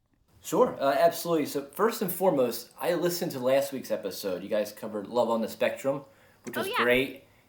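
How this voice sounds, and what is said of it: Philadelphia accent. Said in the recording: “a really good Philly accent”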